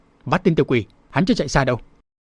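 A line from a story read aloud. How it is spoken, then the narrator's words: Several voices shouting. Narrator (Vietnamese): có nhiều tiếng quát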